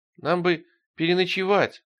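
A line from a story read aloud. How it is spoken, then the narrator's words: Timid. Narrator (Russian): робко начал Тихон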